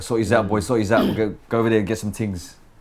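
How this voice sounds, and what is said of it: Imitated South London accent, poorly done. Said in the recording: “he'll speak in the English accent. Or a South London accent when he's drunk... I probably butchered the accent”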